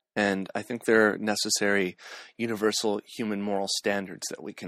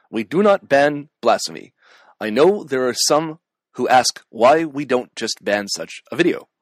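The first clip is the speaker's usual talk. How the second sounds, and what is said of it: Barack Obama impression. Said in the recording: “I'll do an Obama impersonation ... So this is my attempt at an Obama impersonation.”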